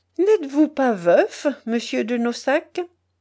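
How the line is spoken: Abrupt, mocking question. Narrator (French): brusque question, faite d'un ton railleur

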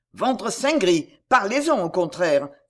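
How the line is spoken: Quick exclamation. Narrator (French): s'écria vivement Henri

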